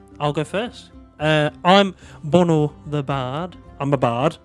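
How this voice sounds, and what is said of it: Character voice with unfamiliar accent. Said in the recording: “What's that accent? ... You ain't from round here.”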